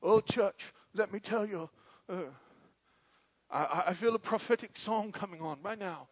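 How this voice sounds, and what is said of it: Imitated South African preacher voice. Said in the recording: “he has a South African accent, though. Calls himself a prophetic singer ... Am I doing a pretty good imitation”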